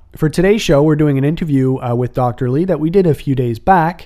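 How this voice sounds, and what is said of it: Raspy, slightly hoarse voice. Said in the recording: “I do have a bit of a raspy voice. Something's going around ... bear with the rasp”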